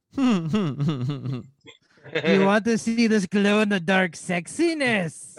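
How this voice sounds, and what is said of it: Comic movie character voice. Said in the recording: “do the fat bastard voice”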